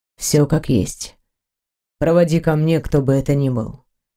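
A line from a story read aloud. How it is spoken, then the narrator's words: Even, level voice. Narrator (Russian): ровным голосом ответил мастер пыток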